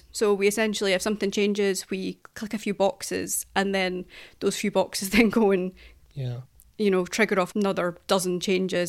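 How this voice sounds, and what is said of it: Scottish accent. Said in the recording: “this is my Scottish accent not helping here”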